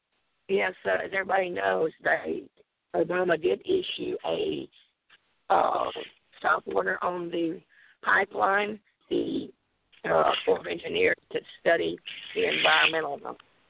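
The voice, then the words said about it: Strained, unwell-sounding voice. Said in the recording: “apologize for my voice. I've been still recovering”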